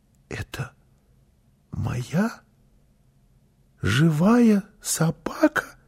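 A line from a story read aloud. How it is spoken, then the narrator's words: Child's whisper. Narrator (Russian): прошептал малыш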